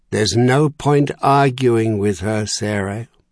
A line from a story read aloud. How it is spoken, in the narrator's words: Merlin had said in a resigned voice